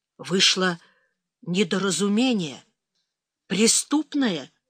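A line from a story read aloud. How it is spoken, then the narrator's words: Awkward, forced. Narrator (Russian): неуклюже выдавил он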